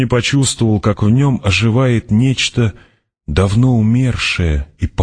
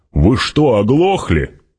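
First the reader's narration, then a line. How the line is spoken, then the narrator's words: Barked. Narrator (Russian): рявкнул он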